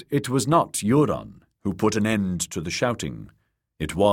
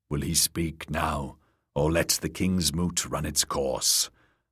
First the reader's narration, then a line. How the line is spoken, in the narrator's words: Orcwood of Orcmont was whispering in Euron's ear